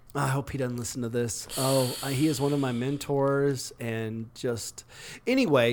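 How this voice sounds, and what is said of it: Usual voice. Nothing is said of it.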